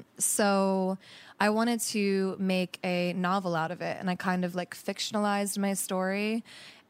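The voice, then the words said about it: Voice sounds unwell. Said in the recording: “excuse my voice, by the way. Not feeling amazing today.”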